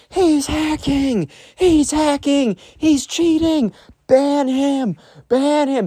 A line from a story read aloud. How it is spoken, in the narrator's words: you hear screaming